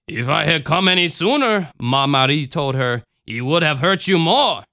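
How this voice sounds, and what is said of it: Cajun accent. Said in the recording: “I just gave Mother Mary a Cajun accent. So that's the fucking accent she's going to have for the rest of this time.”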